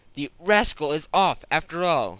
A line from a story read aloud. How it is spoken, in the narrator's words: exclaimed